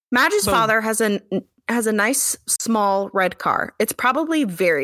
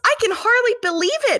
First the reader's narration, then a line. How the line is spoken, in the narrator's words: Madge squeals excitedly